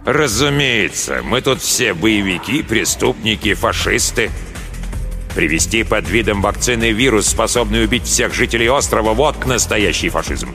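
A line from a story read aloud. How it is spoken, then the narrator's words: Through clenched teeth. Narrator (Russian): Дознаватель процедил сквозь зубы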